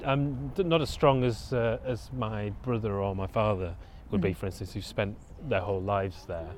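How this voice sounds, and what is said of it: Noticeable English accent, possibly London-tinged. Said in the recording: “do they think that you have a London accent now ... Because I can hear your accent ... the accent starts to get stronger the longer I stay there”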